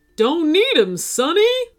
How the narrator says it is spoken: the unicorn DJ cried

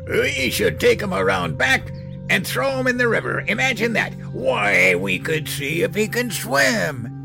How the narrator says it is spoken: He cackled

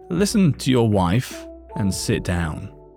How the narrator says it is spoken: said in a quiet but firm voice

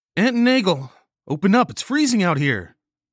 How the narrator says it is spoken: she yelled

